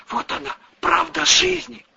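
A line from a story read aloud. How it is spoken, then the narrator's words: Furtive whisper in ear. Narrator (Russian): Очкарик, воровато озираясь по сторонам, зашептал в ухо Василия Васильевича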